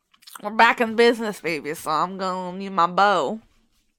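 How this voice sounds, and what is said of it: Numb-mouthed country accent, Boomhauer-like. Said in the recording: “Your mouth is extremely numb, so please talk funny ... a country accent with my mouth is so numb ... It sounds like Boomhauer.”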